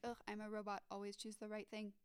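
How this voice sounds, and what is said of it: Poor robot voice impression. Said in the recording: “my really poor robot impression.”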